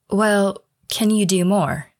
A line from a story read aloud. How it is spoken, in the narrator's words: she asked